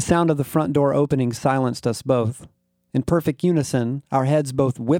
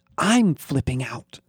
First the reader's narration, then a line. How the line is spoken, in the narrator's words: I whispered loudly